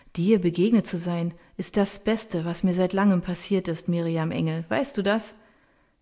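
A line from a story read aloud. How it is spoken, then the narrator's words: Contented sigh. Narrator (German): Sie seufzt wohlig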